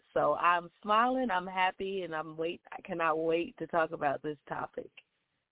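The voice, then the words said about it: Slightly raspy voice. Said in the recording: “excuse my voice tonight. It is a little bit raspy”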